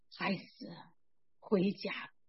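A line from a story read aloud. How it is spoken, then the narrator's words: Very gentle voice. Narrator (Chinese): 一个非常温柔的声音向我说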